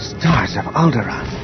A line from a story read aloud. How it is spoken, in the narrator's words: he breathed